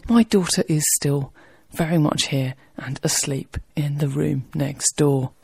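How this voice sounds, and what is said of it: Quiet, near-whispered speech. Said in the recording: “I'm sorry if I sound a bit like I'm whispering.”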